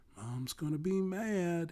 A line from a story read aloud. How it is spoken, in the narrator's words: he said quietly